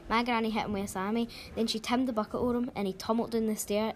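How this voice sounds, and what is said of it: Strong regional accent. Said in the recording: “What accent as well.”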